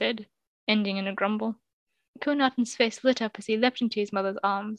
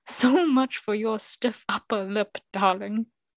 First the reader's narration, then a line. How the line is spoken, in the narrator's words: he chuckled, in delight